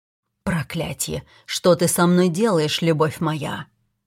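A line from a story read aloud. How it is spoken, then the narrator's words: Rough voice after kiss. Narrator (Russian): спросил Каллен грубым голосом, когда мы разорвали поцелуй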